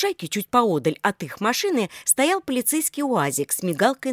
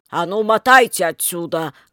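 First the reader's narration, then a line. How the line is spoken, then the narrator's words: Policeman bellowing. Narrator (Russian): гаркнул полицейский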